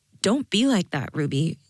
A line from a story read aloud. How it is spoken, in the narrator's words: Jade said